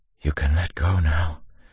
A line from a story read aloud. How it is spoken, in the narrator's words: said, her voice little more than a whisper